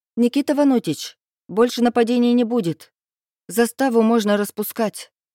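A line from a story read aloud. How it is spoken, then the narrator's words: Shouted. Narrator (Russian): крикнула я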